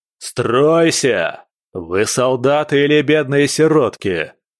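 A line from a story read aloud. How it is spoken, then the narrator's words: Roaring. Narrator (Russian): проревел Джалуа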